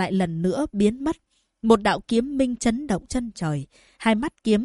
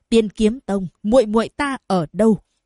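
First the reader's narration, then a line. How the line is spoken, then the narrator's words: Harsh menacing voice. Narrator (Vietnamese): Diệp Huyền gằn giọng nói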